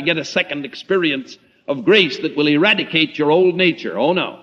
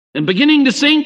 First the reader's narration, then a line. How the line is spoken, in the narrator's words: cried